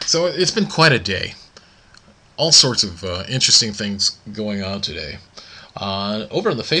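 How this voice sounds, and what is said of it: Usual voice. Nothing is said of it.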